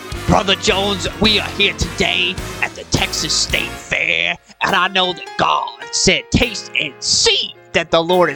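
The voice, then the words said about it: Preacher character voice. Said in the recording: “we do a preacher voice... we're going to do our preacher voice”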